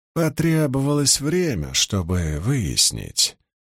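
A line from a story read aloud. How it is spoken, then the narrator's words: Flat, expressionless reply. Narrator (Russian): невыразительным голосом ответил Наришма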